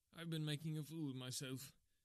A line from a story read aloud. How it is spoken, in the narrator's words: he gasped